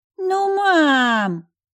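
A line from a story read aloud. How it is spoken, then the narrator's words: Children whining in unison. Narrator (Russian): Взвыли в унисон Лев с Машей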